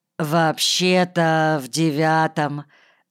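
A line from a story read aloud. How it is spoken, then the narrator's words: Hesitant drawl. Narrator (Russian): неуверенно протянул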